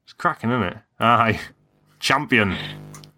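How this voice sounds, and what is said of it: Put-on northern English accent. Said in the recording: “Your northern accent is brilliant.”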